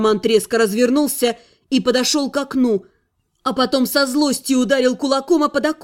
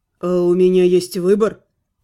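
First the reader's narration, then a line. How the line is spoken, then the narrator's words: Muffled, hollow voice. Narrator (Russian): глухо произнес Анхайлик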